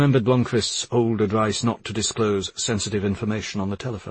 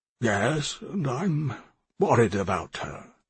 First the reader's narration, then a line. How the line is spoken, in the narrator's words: Palmgren said hesitantly